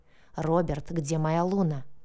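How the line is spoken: Growled, breathing heavily. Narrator (Russian): прорычал, тяжело дыша

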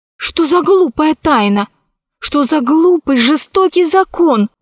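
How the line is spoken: Exclaiming. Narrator (Russian): воскликнула Алиса

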